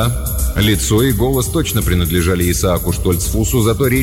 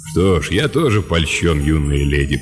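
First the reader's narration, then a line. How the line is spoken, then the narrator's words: Deep bass voice. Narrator (Russian): пробасил Лэб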